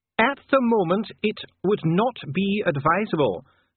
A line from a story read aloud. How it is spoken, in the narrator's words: said Dee, raising his voice again over the noise